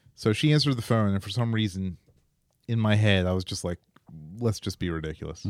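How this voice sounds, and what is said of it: Usual voice. Nothing is said of it.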